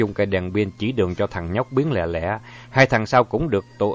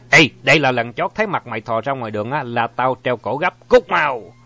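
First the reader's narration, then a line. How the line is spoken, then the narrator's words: Harsh shout. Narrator (Vietnamese): Thằng thứ nhất nghe tên có vẻ Ái Nhĩ Lan, nó quát lên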